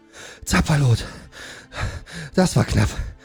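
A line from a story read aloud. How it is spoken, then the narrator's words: Panting from exertion. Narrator (German): sagte Sengol, der vor Anstrengung keuchte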